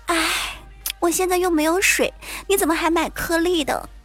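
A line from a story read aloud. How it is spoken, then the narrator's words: Sighing female colleague. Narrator (Chinese): 我那坑爹的女同事在旁边叹气说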